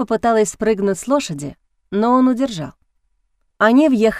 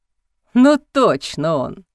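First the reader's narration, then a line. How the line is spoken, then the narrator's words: Laughing. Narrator (Russian): рассмеялся Мерцедони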